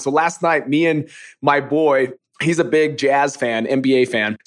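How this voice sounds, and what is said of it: Hoarse, nearly lost voice. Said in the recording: “it probably doesn't sound like I'm doing good ... My voice is like almost gone ... screaming, screaming, screaming ... I lose my voice”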